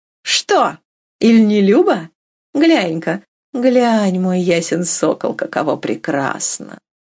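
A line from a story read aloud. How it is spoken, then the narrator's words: Laughing. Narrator (Russian): Катерина Львовна засмеялась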